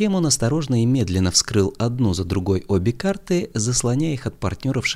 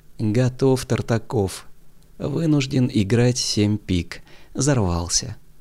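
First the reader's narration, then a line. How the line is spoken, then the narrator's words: Despondent sigh. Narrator (Russian): Он вздохнул и сказал уныло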